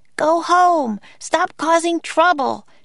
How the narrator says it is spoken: she yelled to the Vikings

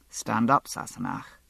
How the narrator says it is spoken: he said quietly

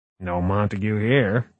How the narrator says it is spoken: he murmured

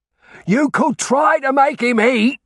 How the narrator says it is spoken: Daniel was shouting

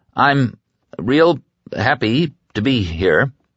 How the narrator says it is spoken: Brad began in a trembling monotone

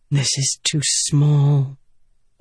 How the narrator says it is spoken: Yasna mumbled

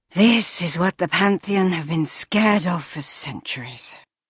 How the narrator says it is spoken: she sighed

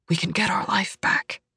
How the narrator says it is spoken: he whispers

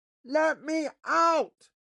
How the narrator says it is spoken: he shouted

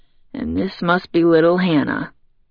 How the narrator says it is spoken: he says softly, his mouth just a few inches away from her ear

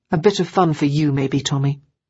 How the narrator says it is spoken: Ruth said coldly

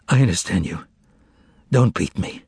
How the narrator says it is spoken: He caught his breath and answered hoarsely

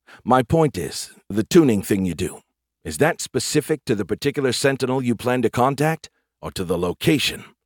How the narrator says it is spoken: He gasped

